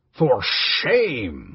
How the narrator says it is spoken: a voice cried

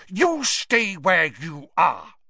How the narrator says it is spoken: snarled Mrs

